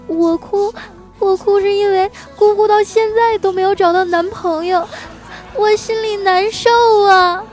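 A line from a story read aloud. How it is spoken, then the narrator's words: Sobbing harder while speaking. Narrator (Chinese): 哭得更厉害了，一边哭啊，还一边说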